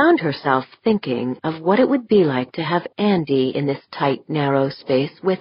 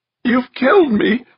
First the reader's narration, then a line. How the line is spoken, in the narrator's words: Westfall was sobbing